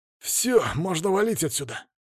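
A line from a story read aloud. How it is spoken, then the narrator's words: Breathed out, exhausted. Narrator (Russian): выдохнул Рябой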